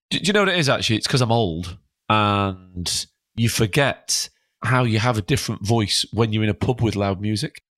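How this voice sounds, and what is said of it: Hoarse, worn-out voice. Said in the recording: “as you can tell, I'm a bit hoarse because I've had a big weekend in Skegness... I just completely wore my voice out”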